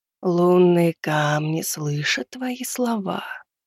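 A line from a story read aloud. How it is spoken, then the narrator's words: Otherworldly whisper. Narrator (Russian): произнесла шепот своим потусторонним, будто пришедшим из чужих снов голосом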